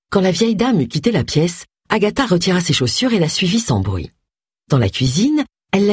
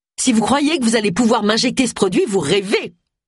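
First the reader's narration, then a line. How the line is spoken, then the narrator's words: Shouted. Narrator (French): cria Agatha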